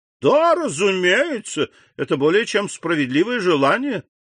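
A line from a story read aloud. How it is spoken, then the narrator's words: Exclaiming. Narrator (Russian): воскликнул господин де Бувиль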